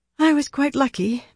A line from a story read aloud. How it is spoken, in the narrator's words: Marilla sighed